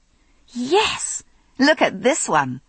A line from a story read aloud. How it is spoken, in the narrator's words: I exclaimed in delight